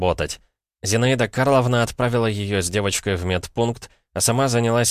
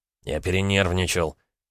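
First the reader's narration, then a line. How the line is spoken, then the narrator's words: Flustered grumble. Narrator (Russian): буркнул красный Дмитрий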